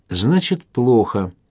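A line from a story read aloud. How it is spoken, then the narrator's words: Tired. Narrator (Russian): устало проговорил Кравченко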